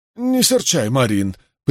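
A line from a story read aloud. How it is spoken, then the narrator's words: Conciliatory mutter. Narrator (Russian): примирительным тоном пробормотал Кен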